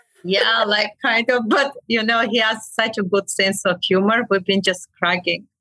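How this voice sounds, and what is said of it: Non-native foreign accent. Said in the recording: “my accent kills me”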